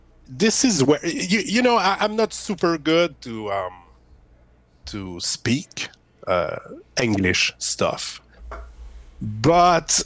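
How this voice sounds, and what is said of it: French Canadian accent. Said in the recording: “where that accent's from? ... I'm from Quebec, Canada ... French Canadian”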